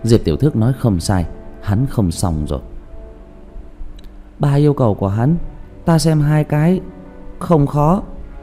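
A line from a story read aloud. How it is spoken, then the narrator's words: Sighing. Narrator (Vietnamese): Diệp Thiếu Dương thở dài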